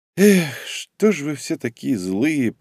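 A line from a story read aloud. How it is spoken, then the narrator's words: Quiet. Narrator (Russian): произнес я тихо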